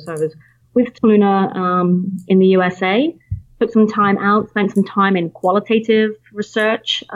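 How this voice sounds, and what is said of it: British accent. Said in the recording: “you can tell from the accent, I'm British”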